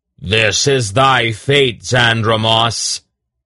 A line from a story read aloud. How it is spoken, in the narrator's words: he roared in an awful voice